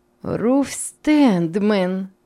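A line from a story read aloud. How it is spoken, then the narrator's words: Joyful. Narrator (Russian): сказала Рахиль, радостно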